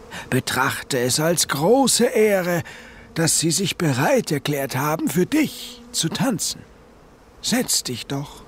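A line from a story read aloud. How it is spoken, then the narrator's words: Called out with dignity. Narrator (German): rief sie würdevoll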